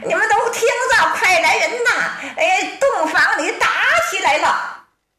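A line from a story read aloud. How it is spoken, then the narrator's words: Straining shout. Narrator (Chinese): 小金棍扯脖子喊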